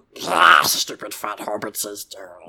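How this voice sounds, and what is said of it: Gollum character voice. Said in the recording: “I'm going to make you do Gollum's voice every time he has a line ... make ... do the voice”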